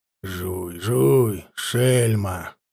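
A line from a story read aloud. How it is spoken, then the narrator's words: Grumbling. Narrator (Russian): ворчал унтер Карпыч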